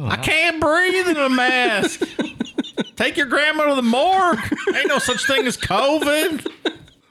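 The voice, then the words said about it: Put-on Southern American accent. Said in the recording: “in that accent ... like in the southern thing about COVID”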